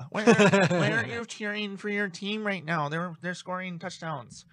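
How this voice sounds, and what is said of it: Imitates another person's voice. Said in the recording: “my impression of Samantha”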